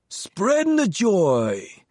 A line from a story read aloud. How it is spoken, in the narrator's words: his whiskey hoarse voice just shy of a shout